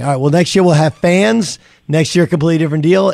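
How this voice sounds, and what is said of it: Hoarse, nearly lost voice. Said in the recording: “Get something for your voice, man. Some tea. ... lost my voice? ... I bet you were yelling.”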